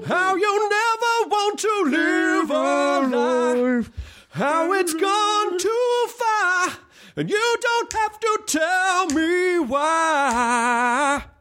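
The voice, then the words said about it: Imitates another person's singing voice. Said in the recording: “I used to be able to do a great Michael McDonald. My voice just doesn't hold up for it anymore.”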